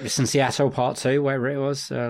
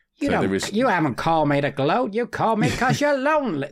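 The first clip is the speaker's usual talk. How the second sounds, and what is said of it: Imitates another person's voice, badly. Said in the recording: “That's a bad impression.”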